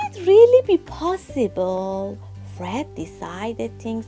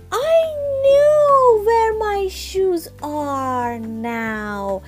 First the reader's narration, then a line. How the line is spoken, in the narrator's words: exclaimed